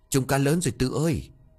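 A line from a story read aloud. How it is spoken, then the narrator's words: Panting, overjoyed. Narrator (Vietnamese): Tèo vừa thở hổn hển vừa mừng rơn bảo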